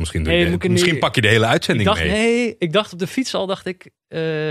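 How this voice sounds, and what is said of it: Usual voice. Nothing is said of it.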